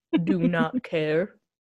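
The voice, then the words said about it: Imitates a bored, flat TV character. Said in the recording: “my best Stanley impression.”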